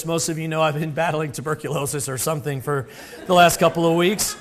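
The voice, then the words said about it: Sick, strained voice. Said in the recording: “I apologize for my voice. ... the voice is not that much better today ... about 40 minutes of coughing”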